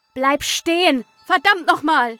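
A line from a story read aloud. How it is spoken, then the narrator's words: Shouted after someone. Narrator (German): rief ich dem Wesen hinterher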